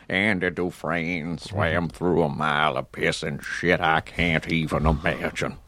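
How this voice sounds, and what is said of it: Morgan Freeman impression. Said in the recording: “I shifted into Morgan Freeman, which I do ... It's a good impression. I mean, it's a really good... This isn't me, but Morgan ... Freeman.”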